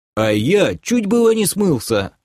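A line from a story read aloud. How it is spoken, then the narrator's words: Snorting chuckle. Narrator (Russian): хмыкнул Док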